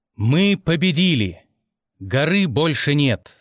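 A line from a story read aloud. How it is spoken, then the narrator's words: Loud. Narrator (Russian): сказал громко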